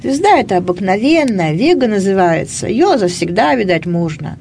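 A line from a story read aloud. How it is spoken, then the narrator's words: Grumbling mutter. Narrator (Russian): Гришка пробурчал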